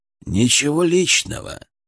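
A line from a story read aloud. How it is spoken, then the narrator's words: Calm, through door window. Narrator (Russian): сказал он спокойно через смотровое окошко в двери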